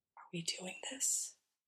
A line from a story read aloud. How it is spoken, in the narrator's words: he whispers